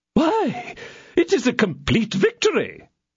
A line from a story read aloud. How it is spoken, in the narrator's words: exclaimed the king, radiant with joy